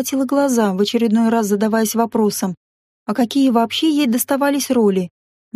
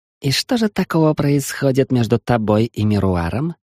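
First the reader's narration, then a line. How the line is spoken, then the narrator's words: Jealous hiss. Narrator (Russian): ревниво прошипел Тане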